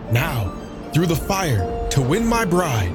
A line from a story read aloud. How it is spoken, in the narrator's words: cried Siegfried joyously